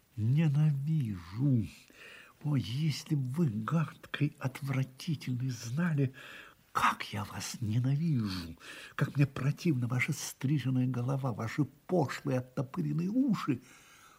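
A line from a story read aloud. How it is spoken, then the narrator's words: Hissed through clenched teeth. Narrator (Russian): стиснула зубы и процедила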